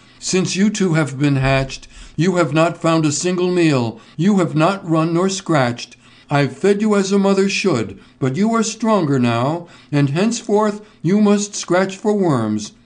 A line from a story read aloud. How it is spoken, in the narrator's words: cried they